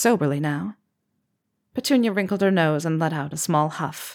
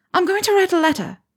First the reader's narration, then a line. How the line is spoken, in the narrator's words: she chirped